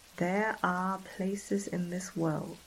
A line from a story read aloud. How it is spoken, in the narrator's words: Professor Henley says, slowly